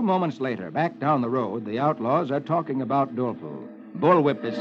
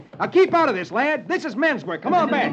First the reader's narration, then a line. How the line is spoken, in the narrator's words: Roy shouts